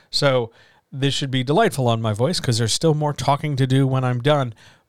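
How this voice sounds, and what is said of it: Slightly scratchy, tired voice. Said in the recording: “if my voice sounds a little scratchy, it's because I've been talking now for... about 5 hours”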